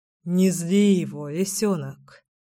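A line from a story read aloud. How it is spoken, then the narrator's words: Sighing. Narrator (Russian): вздохнул Кирилл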